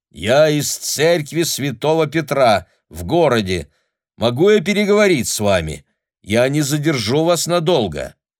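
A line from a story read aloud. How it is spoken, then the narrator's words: Loud. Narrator (Russian): приблизил лицо к самому стеклу и громко сказал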